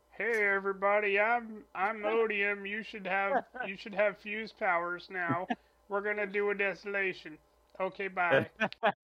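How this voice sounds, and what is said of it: Impression of Odium. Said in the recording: “Ba Ado Mishram did an Odium impression ... And it sounded and, like this.”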